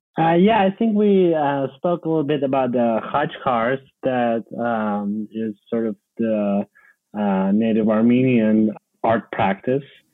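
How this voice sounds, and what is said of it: Noticeable foreign accent. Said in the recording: “I detected an accent.”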